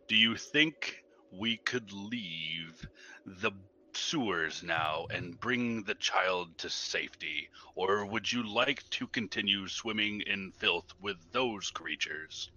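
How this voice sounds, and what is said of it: Raised, louder voice. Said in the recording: “raising my voice ... I don't care about being stealthy”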